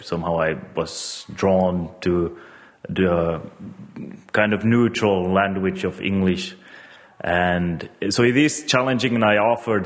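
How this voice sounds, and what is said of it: Non-native English accent. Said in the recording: “get rid of my intonation as much as possible ... my accent actually plays in favor for the character”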